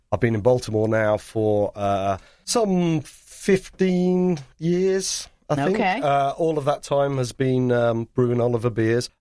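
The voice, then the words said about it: English accent. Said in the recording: “You sort of noticed from my accent that I'm not from around these parts. So, I'm born and raised in England.”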